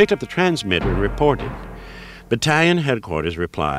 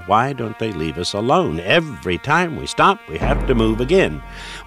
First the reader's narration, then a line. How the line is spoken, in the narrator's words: Lieutenant Damkowicz was muttering to himself